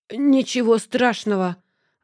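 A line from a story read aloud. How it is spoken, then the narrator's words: Strained, forced smile. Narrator (Russian): ответил я сдавленно, пытаясь выдавить из себя улыбку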